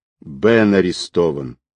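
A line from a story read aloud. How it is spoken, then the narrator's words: Homely calm. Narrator (Russian): как-то по-домашнему спокойно сообщил он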